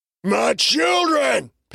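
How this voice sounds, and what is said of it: Inhuman monstrous character voice. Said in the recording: “called in an inhuman voice.”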